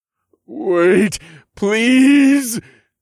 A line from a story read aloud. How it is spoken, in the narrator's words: he begged